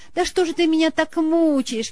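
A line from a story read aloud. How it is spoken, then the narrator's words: Exclaiming. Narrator (Russian): воскликнула она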